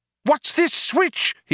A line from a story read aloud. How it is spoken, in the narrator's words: He cried